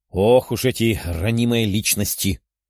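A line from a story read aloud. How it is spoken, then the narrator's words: Grumbling. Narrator (Russian): проворчала Даша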